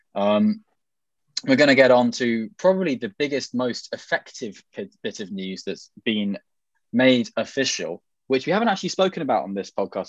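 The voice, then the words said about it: British received pronunciation accent. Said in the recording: “my received pronunciation accent strikes through the mire”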